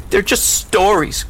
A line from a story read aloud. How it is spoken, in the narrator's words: cried the girl